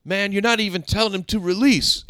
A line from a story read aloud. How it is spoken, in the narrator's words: yells